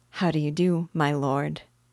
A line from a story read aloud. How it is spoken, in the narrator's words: she said, in a gentle tone